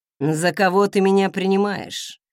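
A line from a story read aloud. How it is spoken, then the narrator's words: Said with a snort. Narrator (Russian): хмыкнул он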